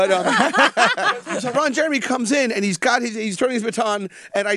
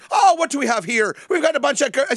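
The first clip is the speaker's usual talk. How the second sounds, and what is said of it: Put-on Irish brogue. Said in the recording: “Are you doing an Irish joke? ... Is that a brogue? ... Yeah, I thought I'd do an Irish brogue.”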